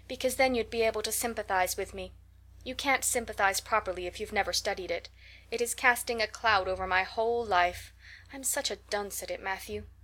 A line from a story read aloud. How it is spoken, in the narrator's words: sighed Anne